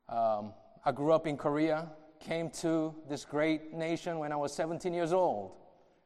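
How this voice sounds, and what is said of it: Mixed Southern, Asian, African American accent. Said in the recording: “you have Southern, Asian, African, American accent”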